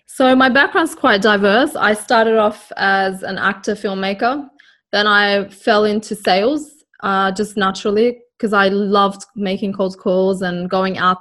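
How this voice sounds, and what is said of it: Australian accent. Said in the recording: “another Australian accent there ... the common accent”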